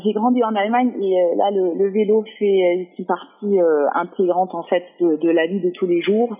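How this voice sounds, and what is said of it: Slight German accent in French. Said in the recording (French): “je suis allemand, donc j'ai un petit accent”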